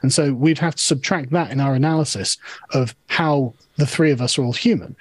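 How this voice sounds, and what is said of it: English accent. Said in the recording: “my accent is one example. It's not a universal accent, it's an English accent.”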